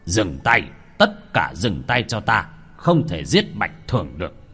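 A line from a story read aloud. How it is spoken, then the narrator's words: Loud commanding shout. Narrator (Vietnamese): Ngọa Vân chân nhân quát to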